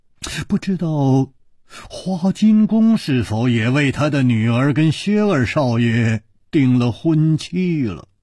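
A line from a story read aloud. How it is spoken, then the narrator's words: Murmured. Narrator (Chinese): 楚留香他喃喃地说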